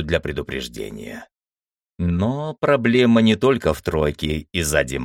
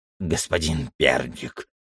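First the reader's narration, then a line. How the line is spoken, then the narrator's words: Old man's nasty voice. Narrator (Russian): заговорил один из них, старик с мерзким голосом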